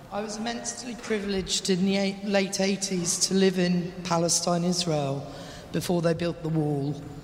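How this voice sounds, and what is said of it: English accent. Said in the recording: “Please excuse the English accent.”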